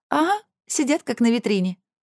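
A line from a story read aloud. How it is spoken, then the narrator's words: Spiteful giggling. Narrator (Russian): подхватила вторая, и обе злобно хихикнули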